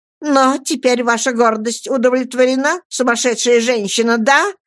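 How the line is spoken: Shouted. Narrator (Russian): крикнула Роза

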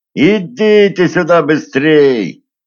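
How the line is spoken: Shouting. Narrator (Russian): крикнул Емельян

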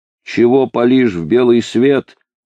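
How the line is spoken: Distant shout. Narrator (Russian): заорал с противоположного холма тот же знакомый голос

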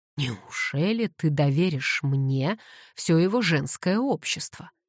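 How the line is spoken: Gloomy. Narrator (Russian): мрачно уточнил Уэстон

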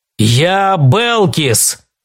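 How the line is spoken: Growling. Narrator (Russian): прорычал он

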